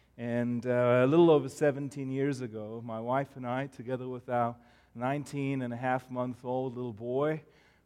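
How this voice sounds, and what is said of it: South African accent. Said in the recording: “I was born and raised in Cape Town, South Africa, and I have heard everything that my accent is from England, it's from Ireland, it's from Australia, it's from New Zealand ... I'm from South Africa”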